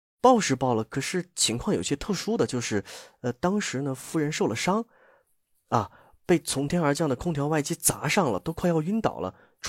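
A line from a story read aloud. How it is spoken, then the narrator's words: Nervous hushed voice. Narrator (Chinese): 蓝子琪大气不敢喘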